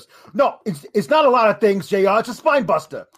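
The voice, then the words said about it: Imitation of Taz's accent. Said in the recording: “it was in Taz's accent.”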